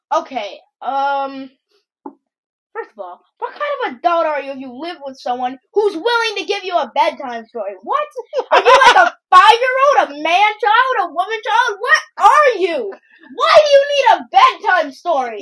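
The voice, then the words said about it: Yelling. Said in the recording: “why are you yelling? ... No yelling. Stop.”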